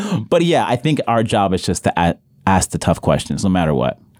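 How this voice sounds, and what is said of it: Usual voice. Nothing is said of it.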